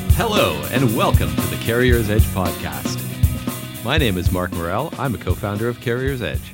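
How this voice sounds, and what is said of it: Energetic announcer radio voice. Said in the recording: “I'm the one doing the radio voice, ... It's hard to keep that up for a while. ... a lot of energy. ... it's fatiguing to listen to. ... we'll now go back to our normal voices.”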